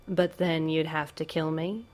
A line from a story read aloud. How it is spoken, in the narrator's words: Bruce finishes dryly